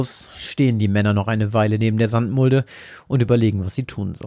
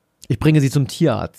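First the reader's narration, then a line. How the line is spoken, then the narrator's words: Plain. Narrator (German): sagt er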